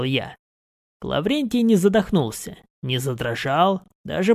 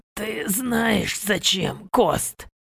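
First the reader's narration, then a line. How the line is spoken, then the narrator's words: Strained, forced out. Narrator (Russian): выдавил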